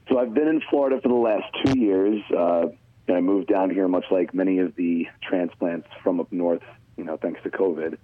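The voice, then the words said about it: Long Island New York accent. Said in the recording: “two Long Island guys here. Our accents can get a little out of hand quickly... that Long Island way about you... The New Yorker side of me certainly has not left. My accent definitely comes out from time to time.”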